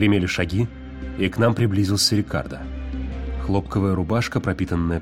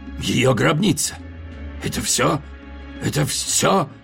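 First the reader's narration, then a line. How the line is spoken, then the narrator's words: Hoarse cry, breaking off. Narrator (Russian): Он осекся, хрипло вскрикнув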